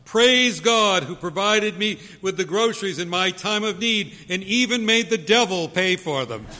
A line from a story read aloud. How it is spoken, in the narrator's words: the woman shouts